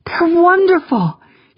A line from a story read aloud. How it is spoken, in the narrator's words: gasped